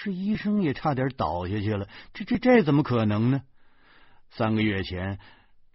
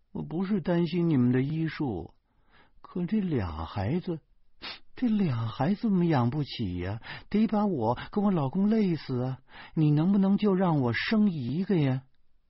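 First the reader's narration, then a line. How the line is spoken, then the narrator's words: Crying. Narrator (Chinese): 这女同事却哭着说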